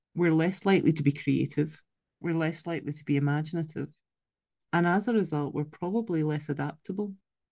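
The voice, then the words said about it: Scottish accent. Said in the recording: “it's my Scottish accent kicking in there, isn't it?”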